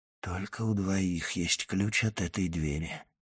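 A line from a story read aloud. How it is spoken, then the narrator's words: Whisper. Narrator (Russian): прошептал Моррель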